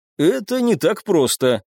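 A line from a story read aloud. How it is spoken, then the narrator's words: Wry snort. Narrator (Russian): хмыкнул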